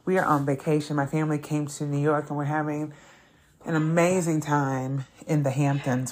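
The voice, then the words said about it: Breathless, out-of-breath speech. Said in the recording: “I'm out of breath, as you can hear”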